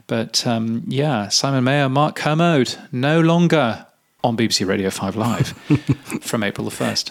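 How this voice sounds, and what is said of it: Polished BBC radio presenter voice. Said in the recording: “Lovely done. You've still got your BBC Radio voice there. Well done.”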